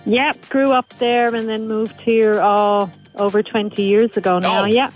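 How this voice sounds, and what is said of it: Irish accent. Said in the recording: “do I sense a bit of an accent? ... Yes, there is an accent, yeah. ... It's an Irish accent. ... you still got the accent and it hasn't like faded out at all.”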